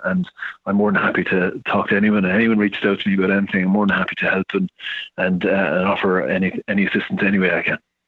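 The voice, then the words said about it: Irish accent. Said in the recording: “your accent. You're in Ireland right now.”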